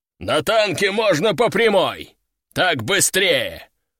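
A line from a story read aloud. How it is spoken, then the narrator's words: Growl. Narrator (Russian): рыкнул Лежаков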